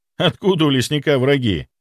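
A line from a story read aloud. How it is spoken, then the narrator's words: Snort. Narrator (Russian): хмыкнул я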